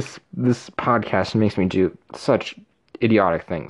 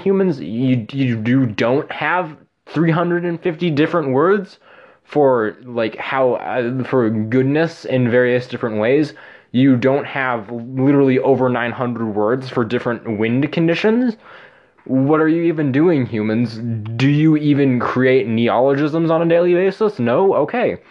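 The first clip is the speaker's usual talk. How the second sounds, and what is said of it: Angry dragon character voice. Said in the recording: “my impression of a draconic being mad at human language”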